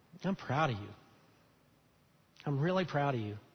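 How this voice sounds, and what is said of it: Emotional, moved speaking voice. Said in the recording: “I'm getting emotional here.”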